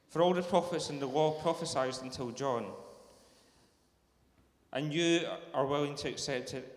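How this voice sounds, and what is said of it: Rich Scottish accent. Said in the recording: “beautiful, rich Scottish accent”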